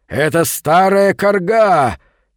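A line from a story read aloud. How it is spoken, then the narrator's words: Loud shout. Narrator (Russian): Возглавлявший погоню воин громко крикнул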